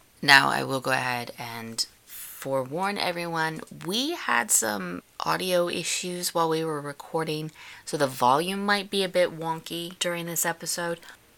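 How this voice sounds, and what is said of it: Rough, not yet warmed-up voice. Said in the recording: “my voice sounds so rough. It hasn't had time to properly warm up yet”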